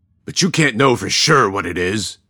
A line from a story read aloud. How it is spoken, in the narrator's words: a third voice growled